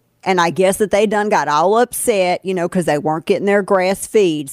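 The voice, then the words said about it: Put-on hillbilly accent. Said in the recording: “Let me show you how to do a correct hillbilly accent here”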